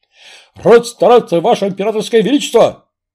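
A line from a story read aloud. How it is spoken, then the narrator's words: Barked. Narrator (Russian): рявкнул пахом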